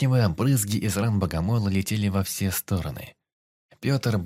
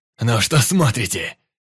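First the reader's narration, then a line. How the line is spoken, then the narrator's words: Furious shouting. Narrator (Russian): кричал он с бешеным выражением лица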